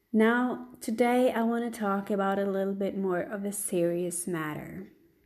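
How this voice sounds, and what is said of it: Slightly off, sick-sounding voice. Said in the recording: “my voice is a little bit off. I just have a cold”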